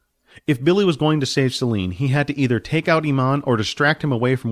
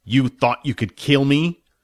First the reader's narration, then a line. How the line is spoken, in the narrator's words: Iman asked, his voice thick and angry